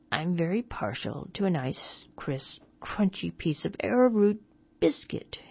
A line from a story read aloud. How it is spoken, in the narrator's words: he began in a husky, wheedling voice